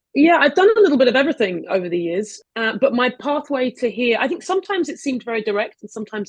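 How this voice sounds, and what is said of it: Non-New York accent. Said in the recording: “despite what my accent would tell you, I'm in New York”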